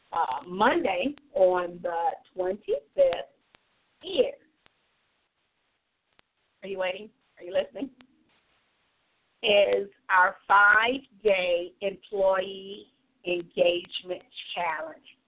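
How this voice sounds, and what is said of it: Congested voice from a cold. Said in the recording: “again, I have a cold”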